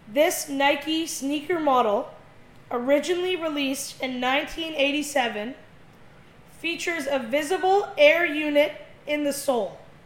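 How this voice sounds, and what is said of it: Speaks slowly and deliberately. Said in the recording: “I'll say it slowly.”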